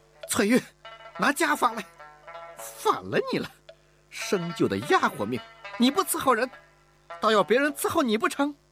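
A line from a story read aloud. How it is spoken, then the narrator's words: Exasperated shout. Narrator (Chinese): 乌雅氏不曾想在小姑娘这儿遇到了麻烦，才忍无可忍地喊道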